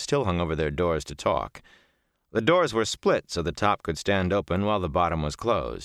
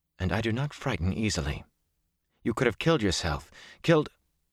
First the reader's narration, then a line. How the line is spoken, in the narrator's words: she said in a tight voice